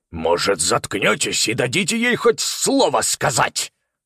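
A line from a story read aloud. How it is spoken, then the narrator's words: Barking snap. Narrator (Russian): рявкнул он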